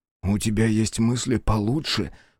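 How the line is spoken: Restrained hiss. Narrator (Russian): прошипел Биру, сдерживая другие обидные и бесполезные слова

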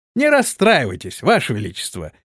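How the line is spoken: Cheerful knight. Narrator (Russian): бодро ответил рыцарь

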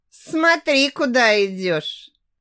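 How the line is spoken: Mocking tone. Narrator (Russian): Насмешливым тоном выдает Маркус

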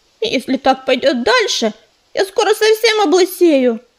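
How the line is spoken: Muttering. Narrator (Russian): пробурчала она

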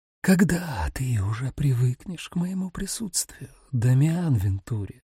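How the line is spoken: Whisper. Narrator (Russian): Ее шепот

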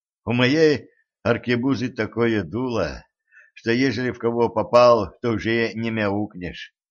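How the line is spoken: Sighing. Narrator (Russian): вздохнул секретарь

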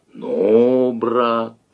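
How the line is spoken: Disappointed drawl. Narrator (Russian): разочарованно протянул Давыдов

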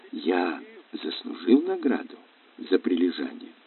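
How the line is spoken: Whispered. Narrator (Russian): прошептал

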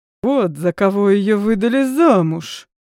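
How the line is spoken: Angry hiss. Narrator (Russian): прошипел, стиснув кулаки

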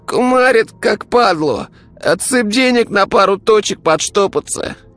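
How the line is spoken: Hoarse, shivering boy. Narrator (Russian): хрипел мальчик, которого била крупная дрожь

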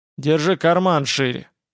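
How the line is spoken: Rough. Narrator (Russian): сказал Стойгнев грубо

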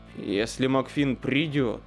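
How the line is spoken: Growling. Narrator (Russian): прорычал Дентон

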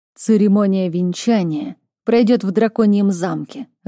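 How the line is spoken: Gruff growl. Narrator (Russian): рыкнул Миролан

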